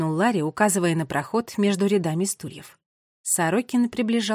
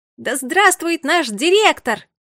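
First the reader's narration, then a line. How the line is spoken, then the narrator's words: Shouted. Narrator (Russian): закричала Агата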